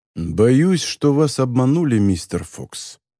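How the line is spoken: Calm. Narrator (Russian): спокойно произнес незнакомец

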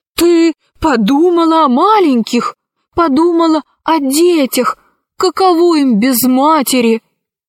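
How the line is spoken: Desperate exclamation. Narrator (Russian): Урсекки отчаянно воскликнул

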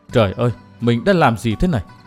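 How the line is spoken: Dazed muttering. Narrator (Vietnamese): Chàng thờ thẫn, lẩm bẩm

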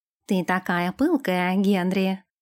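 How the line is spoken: Purring. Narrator (Russian): промурлыкал Нэш

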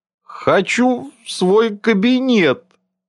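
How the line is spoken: Tearful mutter. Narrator (Russian): плачущим тоном пробормотал

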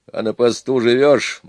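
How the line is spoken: Grumble. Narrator (Russian): буркнул Тимохин

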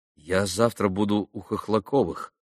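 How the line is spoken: Plain. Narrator (Russian): ответил Алеша

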